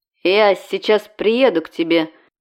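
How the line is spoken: Starting to speak. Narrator (Russian): начал было Макс

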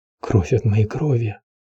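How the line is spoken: Whispered. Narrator (Russian): прошептал он

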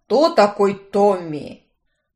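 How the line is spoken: Barked in unison. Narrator (Russian): в унисон рявкнули братья

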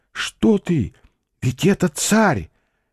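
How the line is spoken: Whispered. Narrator (Russian): Алешка шепнул Алексашке

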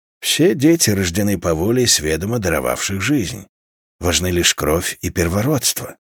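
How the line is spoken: Muttering. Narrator (Russian): пробормотал иноходец

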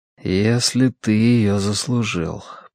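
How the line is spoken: Mutter. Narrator (Russian): пробормотал он

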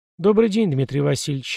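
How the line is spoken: Plain. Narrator (Russian): ответил я

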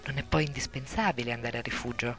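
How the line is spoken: Whispering. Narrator (Italian): una voce sussurrare

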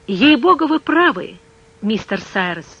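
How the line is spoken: Exclaiming. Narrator (Russian): воскликнул, наконец, Пенкроф

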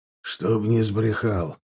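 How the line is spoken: Gruff mutter. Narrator (Russian): буркнул косой

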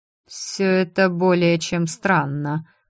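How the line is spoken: Muttered. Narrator (Russian): пробормотал повелитель

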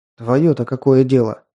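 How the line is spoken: Angry retort. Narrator (Russian): зло бросил в ответ

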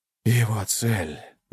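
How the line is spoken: Sighing corpse. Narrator (Russian): вздохнул труп

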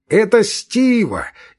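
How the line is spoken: Shout from below. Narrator (Russian): из-под балкона крикнул Левин

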